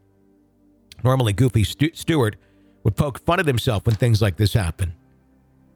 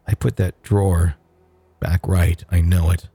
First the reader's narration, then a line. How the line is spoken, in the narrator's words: Stewart slowly said